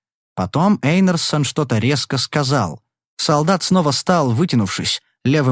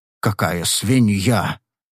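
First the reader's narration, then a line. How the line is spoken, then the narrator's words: Grumbling colonel. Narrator (Russian): Снова проворчал полковник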